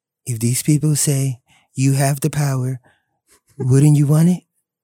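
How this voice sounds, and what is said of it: Imitates another person's voice. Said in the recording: “We need the Trump impersonation ... Give us Trump, man.”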